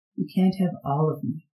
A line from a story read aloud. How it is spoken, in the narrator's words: he murmured